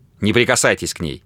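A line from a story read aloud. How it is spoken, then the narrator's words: Said sharply. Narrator (Russian): резко сказал он Грэхэму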